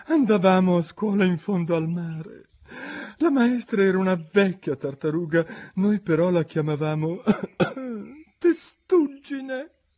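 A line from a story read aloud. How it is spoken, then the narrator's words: Calmer voice, occasional sobs. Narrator (Italian): disse finalmente la tartaruga d'Egitto più placida, ma sempre con un bel singhiozzo di tanto in tanto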